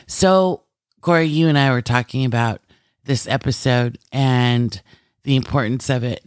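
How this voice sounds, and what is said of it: Rough, hoarse voice. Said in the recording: “I'm sure the voice will come back ... I apologize if my voice ... a little rough”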